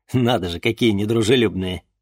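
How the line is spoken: Snorting. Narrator (Russian): хмыкнул Денис

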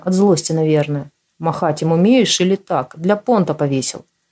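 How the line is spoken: Almost calm. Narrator (Russian): сказал почти спокойно

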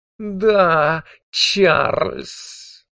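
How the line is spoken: Purring. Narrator (Russian): промурлыкала она

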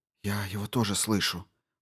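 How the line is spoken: Whispered. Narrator (Russian): прошептала Дженсен

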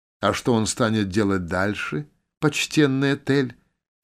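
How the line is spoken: Purring. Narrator (Russian): промурлыкала Ивер

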